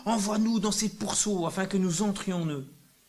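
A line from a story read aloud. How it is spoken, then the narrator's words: Demons pleading. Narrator (French): les démons supplièrent Jésus en disant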